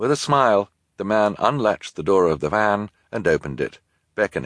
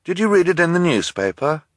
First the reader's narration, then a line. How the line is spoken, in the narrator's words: Klaus asked nervously